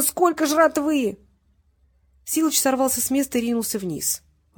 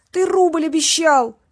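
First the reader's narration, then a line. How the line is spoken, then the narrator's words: Screamed. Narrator (Russian): завопил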